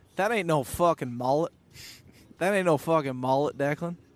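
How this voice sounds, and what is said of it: Imitated Southern accent. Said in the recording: “he's got this Southern accent”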